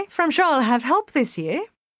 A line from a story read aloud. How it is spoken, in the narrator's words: she added, her voice light and gay